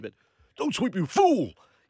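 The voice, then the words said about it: Poor imitation of another person's voice. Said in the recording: “that's a very poor Mr. T impersonation.”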